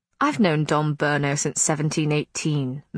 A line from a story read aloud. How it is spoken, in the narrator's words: Matthew said dryly